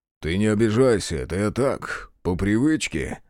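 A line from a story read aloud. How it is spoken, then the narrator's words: Snorting. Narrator (Russian): хмыкнул он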